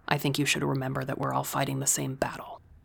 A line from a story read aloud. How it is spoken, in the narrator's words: I said quietly